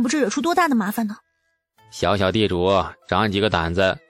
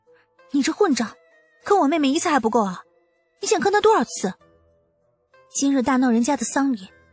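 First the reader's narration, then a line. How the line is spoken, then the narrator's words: Angry, through gritted teeth. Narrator (Chinese): 东阳咬牙就是很生气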